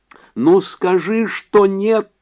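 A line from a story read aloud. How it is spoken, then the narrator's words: Shouting. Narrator (Russian): закричала она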